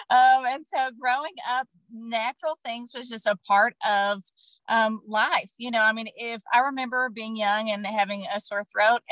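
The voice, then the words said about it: Kentucky accent. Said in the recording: “I am from Kentucky, if you cannot tell by my accent.”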